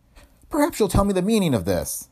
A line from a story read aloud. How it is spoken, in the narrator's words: she said angrily